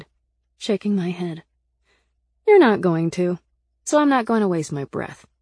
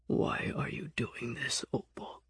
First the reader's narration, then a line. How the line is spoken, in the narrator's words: He asked quietly